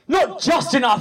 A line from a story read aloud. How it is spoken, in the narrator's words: shouted